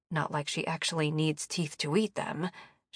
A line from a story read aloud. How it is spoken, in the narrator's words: she muttered